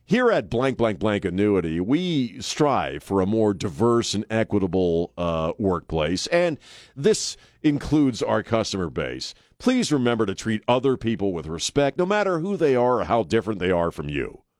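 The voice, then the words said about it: Imitates a robotic automated voice. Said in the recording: “robot voice”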